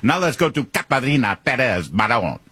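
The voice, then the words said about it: Exaggerated Spanish-style name pronunciation. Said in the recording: “channeling some Telemundo reporter ... It's just so fake and fraudulent”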